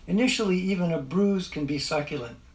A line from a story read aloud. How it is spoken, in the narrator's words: said the third clerk, and sighed